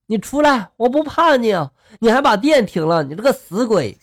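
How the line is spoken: Loud nervous bravado. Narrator (Chinese): 他为了给自己壮胆嘛，他就大喊了

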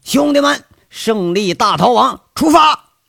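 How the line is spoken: Carefree shout. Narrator (Chinese): 杨伟大咧咧的喊了一声

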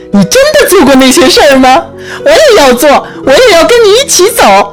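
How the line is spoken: Crying out. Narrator (Chinese): 他叫着

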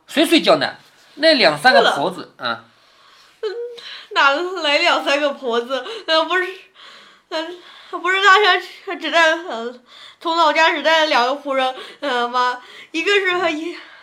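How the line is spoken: Laughing. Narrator (Chinese): 林黛玉……笑着说

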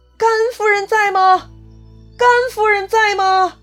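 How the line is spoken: Shouting repeatedly. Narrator (Chinese): 赵云呢，就冲着人群连喊好几遍

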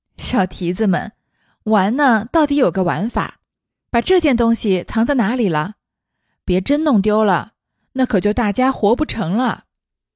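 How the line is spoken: Laughing, teasing. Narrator (Chinese): 袭人当作麝月等藏着吓他玩，便向麝月等笑着说道

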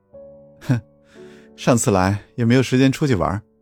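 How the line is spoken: Soft chuckle. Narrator (Chinese): 轻轻笑了一声，说道

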